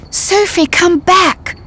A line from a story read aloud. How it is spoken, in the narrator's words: I cried